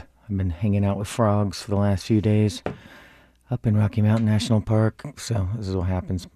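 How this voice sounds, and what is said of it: Hoarse, croaky voice. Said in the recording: “a very hoarse ... I sound like a frog.”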